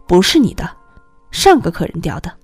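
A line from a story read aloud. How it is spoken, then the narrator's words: Cold. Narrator (Chinese): 司机冷冷地说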